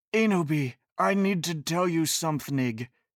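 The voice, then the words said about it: Very serious voice. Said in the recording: “he said in a V-serious voice”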